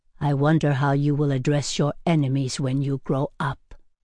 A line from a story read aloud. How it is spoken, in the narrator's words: he said gravely